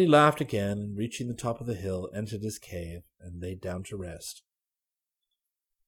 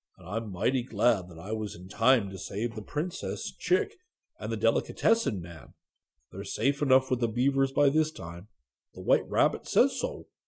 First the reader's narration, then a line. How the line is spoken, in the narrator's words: murmur in the bear language